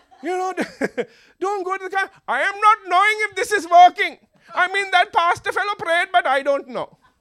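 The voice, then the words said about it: Put-on Sri Lankan accent. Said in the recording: “I'm going to use a Sri Lankan accent right now”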